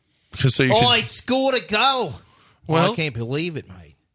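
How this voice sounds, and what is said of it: Put-on Australian accent. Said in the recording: “I do an Australian accent.”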